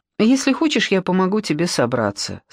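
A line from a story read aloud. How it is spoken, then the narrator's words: Calm. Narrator (Russian): спокойно сказала Таня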